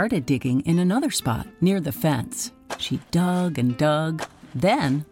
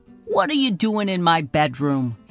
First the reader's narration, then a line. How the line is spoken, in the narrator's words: grumbled